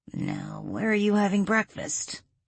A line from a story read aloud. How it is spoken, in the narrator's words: Adam mumbled to himself